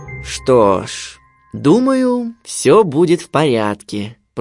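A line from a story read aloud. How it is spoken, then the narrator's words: Father's drawl. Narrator (Russian): протянул отец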